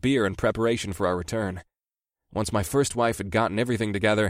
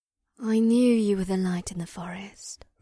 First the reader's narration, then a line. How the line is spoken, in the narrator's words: the mystic said in an airy voice